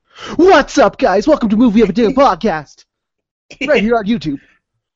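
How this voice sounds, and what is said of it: Imitates a generic YouTuber voice. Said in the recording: “my impression of every single person on YouTube ... It's mainly every YouTuber I've ever listened to.”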